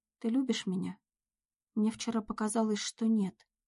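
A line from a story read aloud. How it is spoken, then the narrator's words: Timid, very soft. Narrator (Russian): несмело произнесла Надя, стараясь сказать это как можно более мягко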